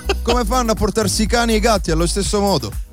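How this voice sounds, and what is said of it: Put-on Trieste Italian accent, done well. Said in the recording (Italian): “sento proprio l'accento, quello di Trieste ... ti esce molto molto bene”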